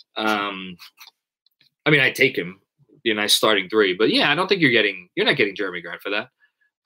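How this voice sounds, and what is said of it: Staten Island Italian-American accent. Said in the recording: “why you say huge instead of huge? Because I'm Italian. I'm from Staten Island. ... The accent comes out the more I drink.”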